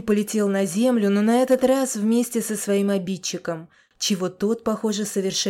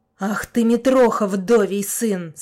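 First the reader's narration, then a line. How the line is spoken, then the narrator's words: Ferocious growl. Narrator (Russian): свирепо прорычал его обидчик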